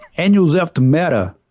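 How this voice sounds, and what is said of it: Poor Joe Quesada impression. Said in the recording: “terrible Joe Quesada impression.”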